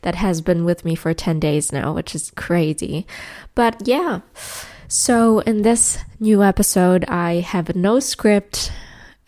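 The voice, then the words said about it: Sick-sounding voice. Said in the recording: “As you can tell by my voice, I'm a little bit sick... a cold. A pretty bad one”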